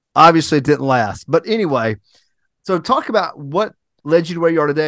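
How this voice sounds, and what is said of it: Mild Southern US accent. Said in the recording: “my Southern accent is not that strong ... You got a little good one on you ... I do have a decent one ... my accent ... Southern boy”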